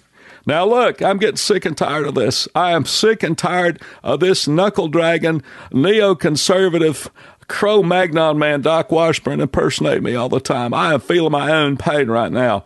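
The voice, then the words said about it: Bill Clinton impression. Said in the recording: “a good Bill Clinton impersonation”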